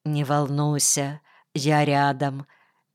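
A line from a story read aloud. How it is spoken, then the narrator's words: Quiet reassurance. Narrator (Russian): тихо сказал Федя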